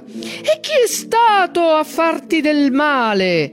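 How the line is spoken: Giant's ragged deep-throated roar. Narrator (Italian): Il ciclope la urlò dalle profondità della sua gola devastata

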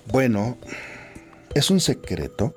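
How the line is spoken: Childlike voice, smiling. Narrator (Spanish): respondió con voz infantil y una sonrisa en el rostro

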